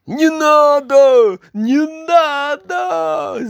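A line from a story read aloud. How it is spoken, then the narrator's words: King screaming. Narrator (Russian): закричал король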